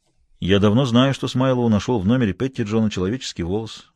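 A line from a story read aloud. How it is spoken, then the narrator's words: Muttering. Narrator (Russian): буркнул Хэммонд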